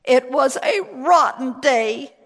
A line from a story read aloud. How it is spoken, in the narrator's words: she sobbed